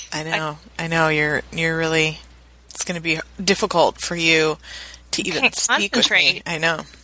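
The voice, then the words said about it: Put-on sexy voice. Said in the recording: “sexy voice ... Oh, that is a good voice ... it's really distracting”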